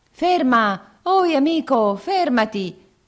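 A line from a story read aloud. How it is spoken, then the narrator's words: Two voices shouting. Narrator (Italian): gridavano due voci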